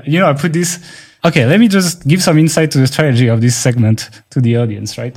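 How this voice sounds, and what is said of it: Non-native French-accented English. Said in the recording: “Sorry, I'm not a native speaker. I'm already doing much better than the average French person ... If you want to comment on my accent”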